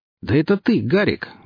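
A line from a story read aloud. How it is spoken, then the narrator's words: Joyful exclamation. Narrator (Russian): воскликнул Гриф радостно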